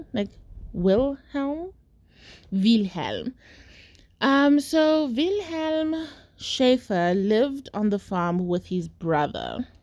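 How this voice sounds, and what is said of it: Put-on foreign accent on names. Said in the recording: “I don't know why I'm putting on the accent, but I don't know like a way of saying it that sounds normal without the accent.”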